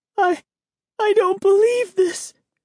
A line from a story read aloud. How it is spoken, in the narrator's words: she cried in a tiny voice